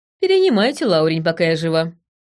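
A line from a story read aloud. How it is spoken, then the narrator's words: Snorting. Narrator (Russian): хмыкнула я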